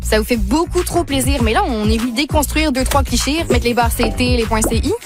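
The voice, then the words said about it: Québécois French accent. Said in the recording (French): “jouer sur la notion de l'accent québécois ... oui, on a un accent ... c'est un Québécois, une Québécoise plutôt, qui parle”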